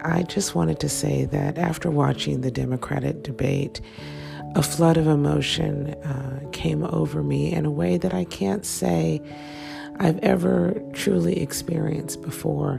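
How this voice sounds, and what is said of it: Sick, strained under-the-weather voice. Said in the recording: “as you can tell by my voice, I have been under the weather for quite some time. So grin and bear it as you struggle through to listen”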